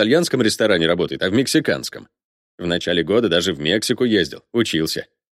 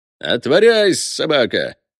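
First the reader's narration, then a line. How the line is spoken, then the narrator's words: Cheerful shout. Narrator (Russian): весело крикнул он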